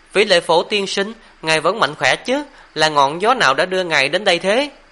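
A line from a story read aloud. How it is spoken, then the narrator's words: Smiling reply. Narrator (Vietnamese): mỉm cười đáp lại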